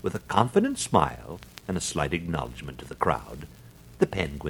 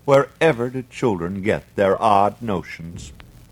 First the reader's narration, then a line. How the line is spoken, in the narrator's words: sighed his mother